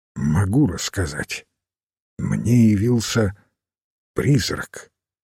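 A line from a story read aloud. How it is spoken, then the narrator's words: Quiet voice. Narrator (Russian): Хорн тихим голосом произнес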